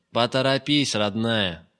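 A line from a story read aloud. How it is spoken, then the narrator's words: Loud. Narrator (Russian): громко произнес Гайдук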